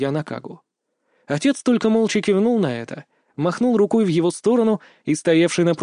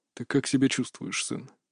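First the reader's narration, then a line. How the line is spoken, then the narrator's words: Gloomy question. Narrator (Russian): Мрачно поинтересовался отец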